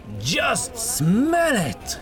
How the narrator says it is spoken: cried out enthusiastically

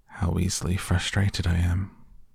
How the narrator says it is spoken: he sighed

